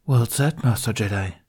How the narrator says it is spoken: said

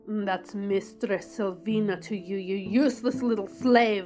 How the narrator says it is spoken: she snarled with a dominance that I couldn't resist

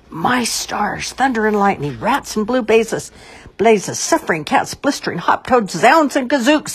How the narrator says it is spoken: he shouted

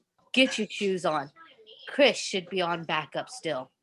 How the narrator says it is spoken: his dad said

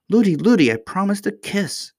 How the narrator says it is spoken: cried Irene

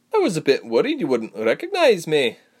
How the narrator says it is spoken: Sebra laughed

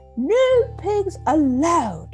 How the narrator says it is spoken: Eugenia shouted

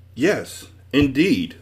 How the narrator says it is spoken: the man replied happily

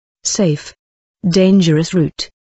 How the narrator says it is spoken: said

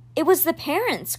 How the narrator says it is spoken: Crow said

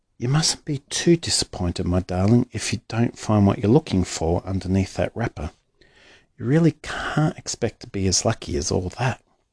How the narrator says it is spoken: Bucket said gently

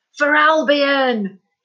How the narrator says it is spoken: he roared as the chanting reached a crescendo

